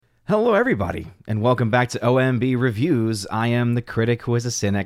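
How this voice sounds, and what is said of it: Rough, congested sick-sounding voice. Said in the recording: “my voice is absolute trash ... I'm getting over a cold, and so that is why my voice is not sounding very good. I had some of the post-nasal drip.”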